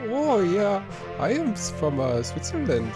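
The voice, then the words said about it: Put-on Swiss accent, baby-talk tone. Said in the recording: “a Switzerland accent ... Again, you just sound like whenever I talk to a baby.”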